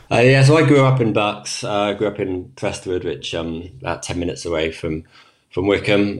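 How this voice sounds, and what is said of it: English accent. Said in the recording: “you clearly have an English accent.”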